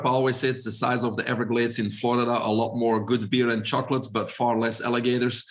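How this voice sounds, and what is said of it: Belgian accent. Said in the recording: “probably everybody can hear my accent. I'm originally from Belgium.”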